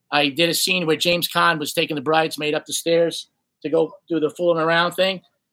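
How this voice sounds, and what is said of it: Brooklyn accent. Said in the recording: “Brooklyn accent”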